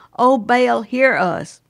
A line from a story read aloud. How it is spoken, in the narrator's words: The prophets of Baal cried aloud